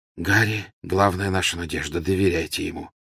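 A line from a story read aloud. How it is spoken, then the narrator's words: Calm reply. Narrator (Russian): спокойно ответил Люпин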